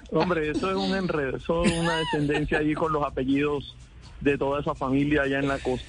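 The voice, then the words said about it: Colombian Caribbean coast accent. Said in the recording (Spanish): “¿ya le reconoces un poquito el acento ... ¿en dónde nació ...? Hombre, yo soy cincelejano. Cincelejano. ... Cincelejo Sucre.”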